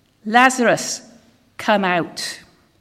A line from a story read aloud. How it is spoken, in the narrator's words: Jesus called in a loud voice